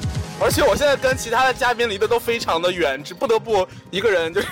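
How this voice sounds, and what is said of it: Usual voice. Nothing is said of it.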